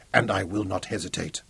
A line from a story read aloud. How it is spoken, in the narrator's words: said huskily